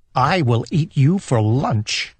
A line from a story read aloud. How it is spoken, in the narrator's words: he said